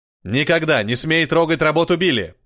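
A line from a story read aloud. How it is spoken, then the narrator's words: Booming thunderous reply. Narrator (Russian): прогремел ответ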